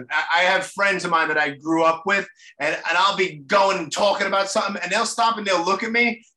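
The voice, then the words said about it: Strong Brooklyn accent. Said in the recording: “I got the bad Brooklyn accent ... you got it bad ... your accent is bad ... I got it that bad, huh? ... I'm like a parody of myself”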